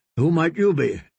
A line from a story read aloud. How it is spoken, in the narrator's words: Jaime asked